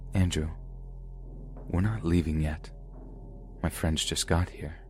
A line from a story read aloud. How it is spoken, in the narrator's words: Gwen whispered in my ear